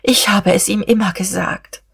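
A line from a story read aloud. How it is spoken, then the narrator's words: Groaning. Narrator (German): stöhnte die Dichterin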